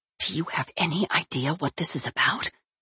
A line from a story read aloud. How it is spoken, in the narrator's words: he whispered